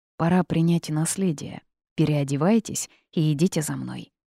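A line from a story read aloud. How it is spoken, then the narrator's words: Serious declaration. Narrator (Russian): птиц серьезным тоном заявил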